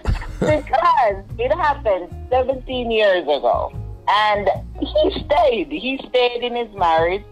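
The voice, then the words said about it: Speaks with a noticeable accent. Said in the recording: “Beautiful accent, too. Beautiful accent.”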